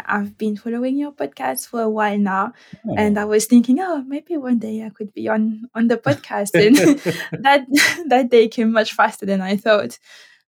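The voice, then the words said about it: French accent in English. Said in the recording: “you're originally from France ... I'm trying very hard not to sound too French, but this is me”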